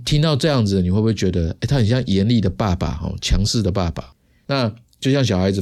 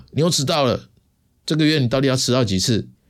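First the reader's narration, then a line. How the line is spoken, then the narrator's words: Angry yelling. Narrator (Chinese): 主管 Tony，在会议室吼他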